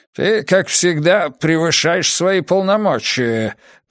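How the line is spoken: Grumbling. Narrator (Russian): проворчал он

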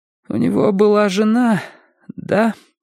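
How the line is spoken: Trembling voice. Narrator (Russian): спросила она дрогнувшим голосом

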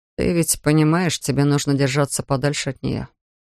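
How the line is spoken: Quiet. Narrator (Russian): тихо произнес Флойд

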